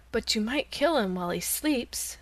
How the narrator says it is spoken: suggested the cat in a soft voice

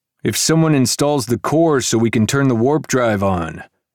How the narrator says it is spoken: Jackin called out

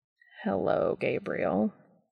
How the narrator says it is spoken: Cass said dryly

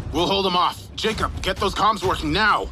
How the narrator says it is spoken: Ulrich yelled

